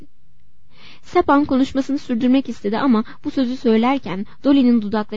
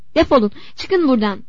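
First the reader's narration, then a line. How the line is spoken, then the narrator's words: Faster shouting. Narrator (Turkish): diye bağırdı daha hızlı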